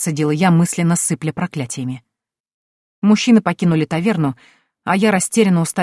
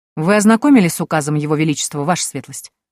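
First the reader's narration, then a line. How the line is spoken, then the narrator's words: Indifferent inquiry. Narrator (Russian): безразличным тоном осведомился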